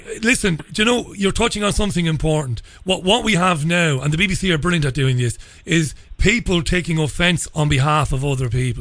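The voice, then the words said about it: Strong Irish accent. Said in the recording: “I'm a guy with a strong Irish accent”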